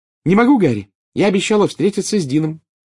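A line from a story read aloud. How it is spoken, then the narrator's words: Cheerful reply. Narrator (Russian): весело ответила Джинни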